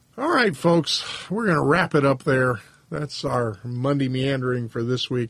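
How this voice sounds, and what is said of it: Hoarse, worn-out voice. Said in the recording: “My voice is kind of hashed, as you can tell.”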